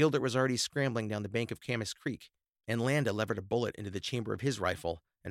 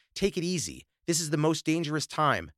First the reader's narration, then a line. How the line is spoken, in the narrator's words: Landa shouted